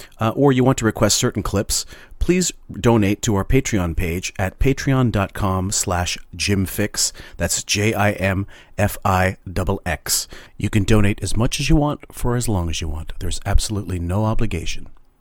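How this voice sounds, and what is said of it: Silly put-on announcer voice. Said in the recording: “you sound so nice, your normal voice, and now you come with this little silly”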